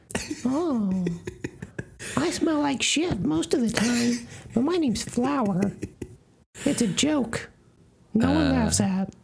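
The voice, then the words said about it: Character voice of Flower from Bambi. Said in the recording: “You remember a flower from Bambi? ... one of your normal go-to voices.”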